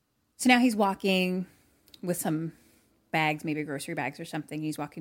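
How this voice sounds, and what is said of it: Usual voice. Nothing is said of it.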